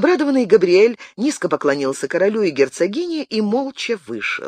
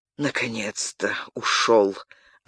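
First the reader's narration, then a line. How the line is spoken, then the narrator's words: Relieved exhale. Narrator (Russian): облегченно выдохнул Генрих, словно сбросив с себя непомерный груз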